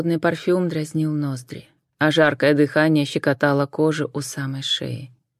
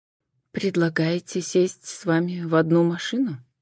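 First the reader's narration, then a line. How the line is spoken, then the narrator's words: Quiet clarifying question. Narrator (Russian): Также негромко уточнила Джен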